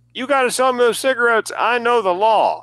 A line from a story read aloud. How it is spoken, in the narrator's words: he screams at the clerk